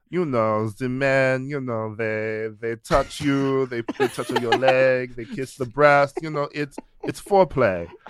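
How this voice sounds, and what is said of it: Exaggerated French accent like Pepe Le Pew. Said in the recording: “I don't know what accent that was ... famous cartoon skunk”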